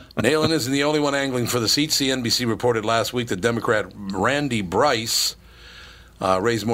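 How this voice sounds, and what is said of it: Usual voice. Nothing is said of it.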